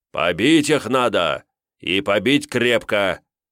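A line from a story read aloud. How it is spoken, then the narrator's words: Sharply raised voice. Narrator (Russian): Посланец резко повысил голос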